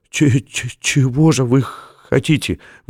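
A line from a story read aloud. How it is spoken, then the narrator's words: Forced out, stammering. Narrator (Russian): выдавил он, заикаясь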